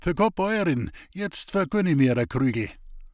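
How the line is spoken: Calling from outside. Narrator (German): Draußen rief er noch in die Küche

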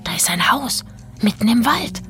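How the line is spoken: Whispered. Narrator (German): flüsterte

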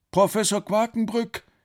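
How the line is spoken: Surprised call. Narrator (German): rief Alex überrascht

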